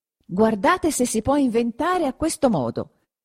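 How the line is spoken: Exclaimed again. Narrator (Italian): esclamò di nuovo Perpetua

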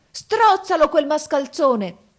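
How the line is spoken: Wizard shouting. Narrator (Italian): urlò il mago

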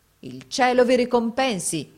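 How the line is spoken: Exclaimed. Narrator (Italian): esclamò

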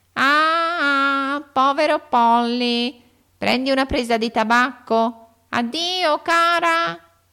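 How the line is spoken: Shaken, jolted squawk. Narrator (Italian): gridò Polly … scosso come era dalle ripetute tirate di Lori

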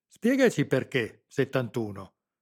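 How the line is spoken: Defiant. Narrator (Italian): replicò Stefano in tono di sfida

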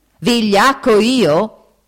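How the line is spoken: Yelled. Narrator (Italian): urlò Foffo

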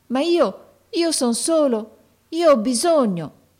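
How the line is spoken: Pleading boy's exclamation. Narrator (Italian): esclamò il ragazzo con voce di preghiera

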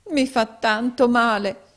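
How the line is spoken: Pained exclamation. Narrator (Italian): esclamò la poverina

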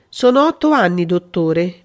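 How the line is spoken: Almost moved voice. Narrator (Italian): disse con voce quasi commossa

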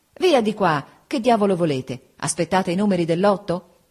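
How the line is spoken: Impatient exclamation. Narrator (Italian): Giuseppe, spazientito, esclamava

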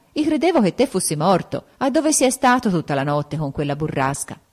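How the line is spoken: Exclamation. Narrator (Italian): esclamò

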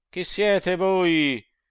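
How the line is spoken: Shouting. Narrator (Italian): se non quando gridar

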